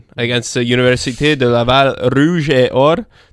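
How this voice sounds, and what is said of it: Attempted French accent on names. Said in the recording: “it was pretty good. It was a good French accent. We'll work on it.”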